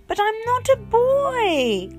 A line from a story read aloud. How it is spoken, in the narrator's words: Coy wailed